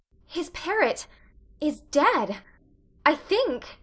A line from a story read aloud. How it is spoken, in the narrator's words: gasped poor Anne, who couldn't have felt sure of her own name at that precise moment